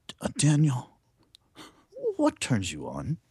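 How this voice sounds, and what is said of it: Imitates another person's voice. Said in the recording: “I'll do my James Lipton voice”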